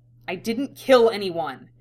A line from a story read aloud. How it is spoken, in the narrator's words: The retort was furious, practically spat from his lips